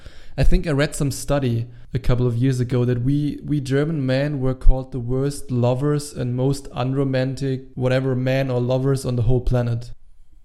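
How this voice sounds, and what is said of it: German accent in English. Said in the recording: “can hear with my super annoying accent, I'm German. I might not sound as bad as Arnold Schwarzenegger, or maybe even worse”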